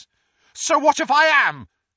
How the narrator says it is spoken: said Neville loudly

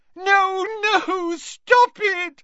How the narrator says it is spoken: squealed Moaning Myrtle, her voice echoing loudly around the tiled room

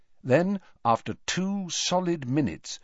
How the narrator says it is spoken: Dumbledore said quietly

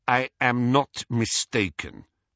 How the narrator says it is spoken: said Crumb coldly

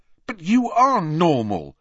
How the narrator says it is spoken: said Harry fiercely

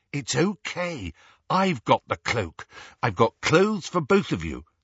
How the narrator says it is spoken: said Hermione

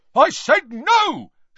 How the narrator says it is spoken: shouted the brutal-faced man

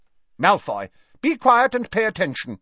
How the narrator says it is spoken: barked Professor McGonagall

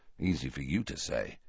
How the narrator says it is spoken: muttered Harry

